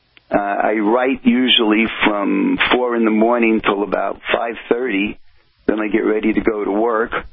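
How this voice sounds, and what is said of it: New Jersey accent. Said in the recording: “my New Jersey accent, which I'm sure you can hear”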